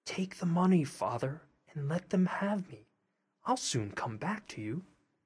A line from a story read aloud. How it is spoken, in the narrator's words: Tom whispered in his ear